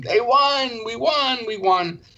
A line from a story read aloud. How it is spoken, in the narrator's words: you screamed